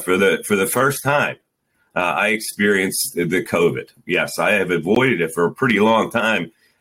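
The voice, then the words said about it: Rough, hoarse, sick-sounding voice. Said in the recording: “my voice sounds a little hairy, it's because it is. I'm a little under the weather.”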